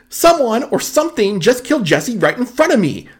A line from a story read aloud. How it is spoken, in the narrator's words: James yelled